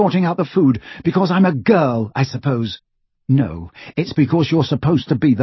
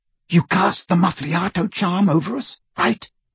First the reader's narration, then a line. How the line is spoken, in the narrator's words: He whispered to Hermione